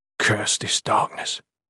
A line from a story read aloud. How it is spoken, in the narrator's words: he muttered